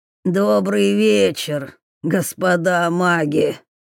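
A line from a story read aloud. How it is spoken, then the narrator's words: Strained hoarse voice. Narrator (Russian): прохрипел незнакомец, так и не разогнувшись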